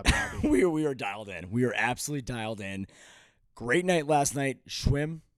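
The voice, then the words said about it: Excited, energetic, pumped-up voice. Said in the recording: “I can tell in your voice you're pumped”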